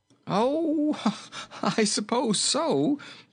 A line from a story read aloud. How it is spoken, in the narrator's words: answered King Rinkitink with a laugh